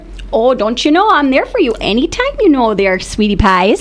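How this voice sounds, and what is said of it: Put-on Yooper accent. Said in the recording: “a Youper accent ... talk Youper ... Oh, you've got it down. Oh, wow, that was good.”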